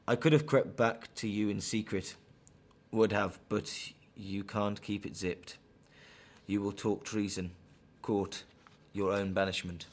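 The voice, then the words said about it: West Midlands English accent. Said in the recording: “that was my accent... I'm from the West Midlands, so I'm sort of caught between a Birmingham and a more Wolverhampton sort of sounding on my accent”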